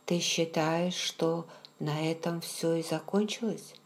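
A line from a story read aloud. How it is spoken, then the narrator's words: Startled, quiet question. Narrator (Russian): Я вздрогнула и тихо спросила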